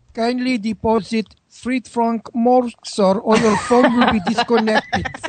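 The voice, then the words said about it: Put-on French accent. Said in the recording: “French accent I've ever heard.”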